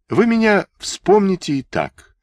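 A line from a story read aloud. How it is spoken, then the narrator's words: Sad smiling woman. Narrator (Russian): печально улыбнулась в ответ Ватбольская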